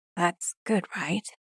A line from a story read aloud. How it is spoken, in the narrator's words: He whispers